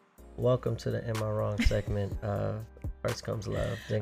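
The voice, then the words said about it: Very low, sultry voice. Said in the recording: “he goes all the way low trying to put on his sexy voice”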